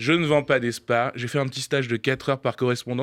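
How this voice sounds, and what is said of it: Usual voice. Nothing is said of it.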